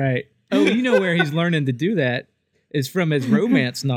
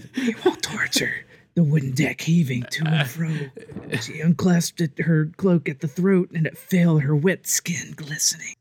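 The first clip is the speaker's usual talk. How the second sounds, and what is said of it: Soft whispery ASMR-style voice. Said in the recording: “I'm doing my ASMR voice.”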